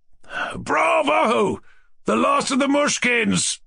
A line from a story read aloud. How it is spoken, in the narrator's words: yelled Ferdoshenko